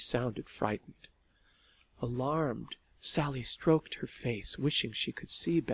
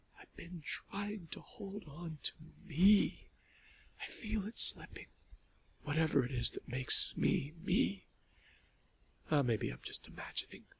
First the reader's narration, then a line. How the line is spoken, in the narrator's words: in a trembling whisper, Lavinia said